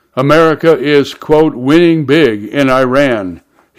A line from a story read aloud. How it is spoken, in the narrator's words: he said